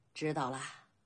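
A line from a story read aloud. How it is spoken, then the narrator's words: Soft report. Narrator (Chinese): 少年弟子轻声禀报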